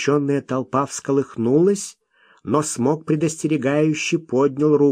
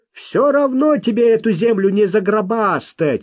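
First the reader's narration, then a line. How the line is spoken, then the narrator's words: Shouted out. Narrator (Russian): выкрикнул кто-то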